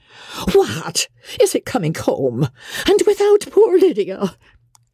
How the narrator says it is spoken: she cried

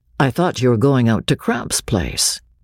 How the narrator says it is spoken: Gay said sullenly in a low voice

